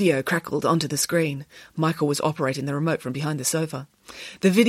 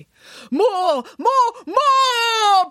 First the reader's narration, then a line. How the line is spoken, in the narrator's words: bellowed the on-screen Nanny Piggins